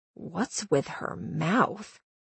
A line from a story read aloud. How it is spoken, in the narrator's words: I asked Star under my breath